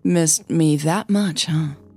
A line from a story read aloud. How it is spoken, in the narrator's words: Charles purred even louder